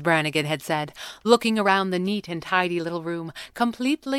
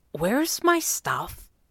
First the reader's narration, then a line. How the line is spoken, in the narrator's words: Jeremy had asked again, quietly